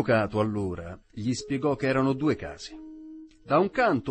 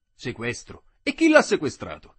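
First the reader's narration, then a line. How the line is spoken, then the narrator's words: Exclaimed. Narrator (Italian): esclamò lo zirafa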